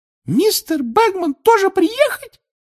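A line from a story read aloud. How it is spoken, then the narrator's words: Angry squeak. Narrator (Russian): пискнула Винки, рассердилась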